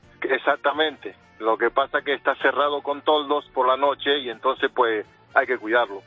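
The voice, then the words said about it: Argentine Spanish accent. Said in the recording (Spanish): “tienes un acentillo que no es aquí como muy nacional ... me persigue a todas partes el acento, acento argentino”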